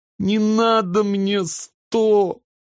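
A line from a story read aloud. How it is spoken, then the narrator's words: Little sister sobbing. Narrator (Russian): всхлипнула сестренка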